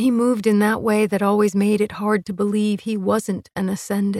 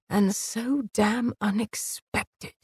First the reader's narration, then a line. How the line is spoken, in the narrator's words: he whispered, his voice thick